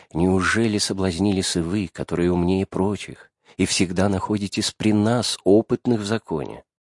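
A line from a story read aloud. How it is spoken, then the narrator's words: Meek and gentle. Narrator (Russian): говорят им очень кротко и ласково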